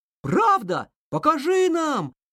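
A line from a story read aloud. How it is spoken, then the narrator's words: Group shouting. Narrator (Russian): закричали друзья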